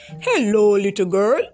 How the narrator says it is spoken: a deep voice boomed

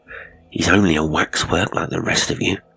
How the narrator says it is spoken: Hewson muttered defiantly

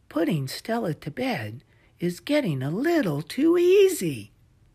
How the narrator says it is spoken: sighed, thinking to himself

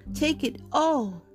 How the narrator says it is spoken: exclaimed the king

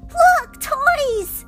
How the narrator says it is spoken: cried a voice

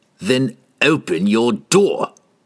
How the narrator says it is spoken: Entreri sneered

